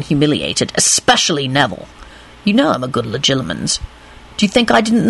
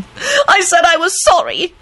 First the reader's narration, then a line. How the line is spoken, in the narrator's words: she shrieked